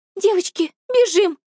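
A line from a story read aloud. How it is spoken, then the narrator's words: Pleading. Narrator (Russian): взмолилась Алиса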